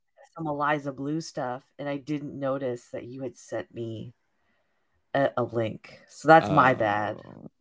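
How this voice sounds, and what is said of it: Slightly raspy voice. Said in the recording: “sound a little raspy?”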